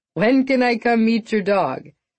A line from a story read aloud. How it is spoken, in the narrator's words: He laughed